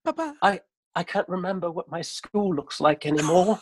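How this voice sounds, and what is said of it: English accent. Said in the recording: “he doesn't have an English accent, but he does for this bit.”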